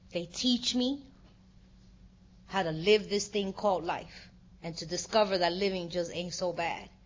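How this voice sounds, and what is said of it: Emotional, wavering voice. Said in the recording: “I know I'm a little emotional”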